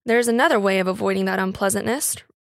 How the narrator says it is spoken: remarked the husband dryly

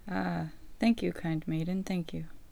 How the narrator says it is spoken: sighed the wolf

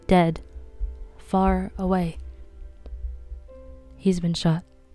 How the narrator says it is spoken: He said, and his voice was expressionless

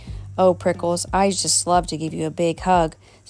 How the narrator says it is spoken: said Mother Raccoon

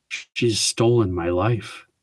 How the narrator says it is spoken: whispered

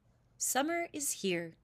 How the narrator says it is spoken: The cuckoo called out

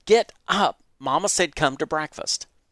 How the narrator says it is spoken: said irritably

